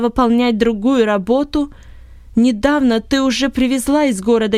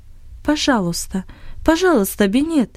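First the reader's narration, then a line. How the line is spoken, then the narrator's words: Quiet. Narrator (Russian): тихо произнесла Ани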